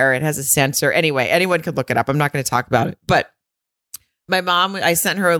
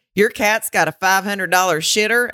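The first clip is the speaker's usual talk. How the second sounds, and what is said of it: Arkansas accent imitating her mom. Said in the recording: “the Arkansas accent that I'm immediately go to Randy Quaid, like, shitter's full.”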